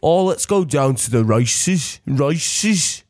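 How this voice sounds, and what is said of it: Put-on Birmingham accent. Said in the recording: “have a little Peaky Blinders thing ... He's obsessed with the accent. I'll do mine. Birmingham.”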